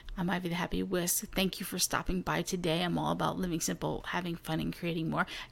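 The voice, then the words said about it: Quiet, whispered speaking. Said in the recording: “I gotta talk a little quiet today ... I'm gonna do a whisper cast, sort of.”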